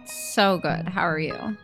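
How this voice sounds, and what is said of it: Sarcastic tone. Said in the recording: “that was sarcastic ... They can probably tell by my tonality.”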